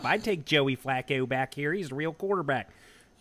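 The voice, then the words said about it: Exaggerated Baltimore accent. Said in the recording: “apologies for the terrible Baltimore accent.”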